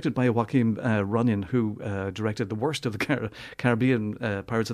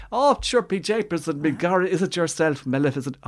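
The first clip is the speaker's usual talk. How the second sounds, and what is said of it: Exaggerated Hollywood Irish accent. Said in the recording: “Irish accent, and it's one of those Hollywood Irish accents ... you're just cringing every time he opens his mouth”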